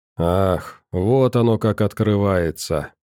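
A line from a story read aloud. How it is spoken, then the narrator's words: Sorrowful sigh, old man. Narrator (Russian): пенсионер горестно вздохнул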